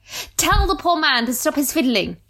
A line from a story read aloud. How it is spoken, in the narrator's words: he shouted at the clerks